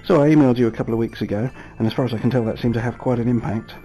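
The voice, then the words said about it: British accent. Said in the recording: “It's ... from London ... you can never have too many real British accents on a podcast”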